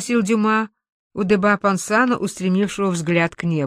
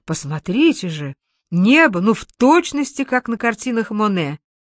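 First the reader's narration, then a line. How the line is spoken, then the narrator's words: Exclaimed. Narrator (Russian): один из них воскликнул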